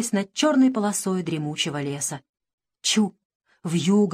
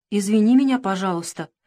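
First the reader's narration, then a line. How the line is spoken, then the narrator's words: Calm reply. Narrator (Russian): спокойно отозвался Николенька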